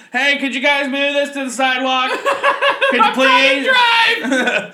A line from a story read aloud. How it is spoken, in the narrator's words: screaming